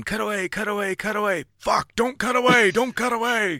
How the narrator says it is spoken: Egon was standing right next to me, screaming

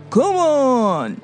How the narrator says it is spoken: she mocked

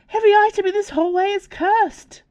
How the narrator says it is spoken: yelped, too late to stop the woman barging in

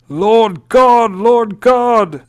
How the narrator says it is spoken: It said in a shout of torment

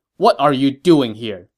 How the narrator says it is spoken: Ma Chao said sternly

